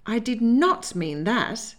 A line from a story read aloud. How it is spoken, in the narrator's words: she informed him indignantly, when she could speak